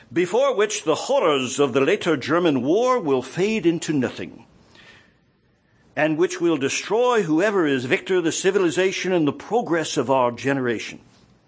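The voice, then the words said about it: Bad put-on British accent. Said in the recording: “bad British accent.”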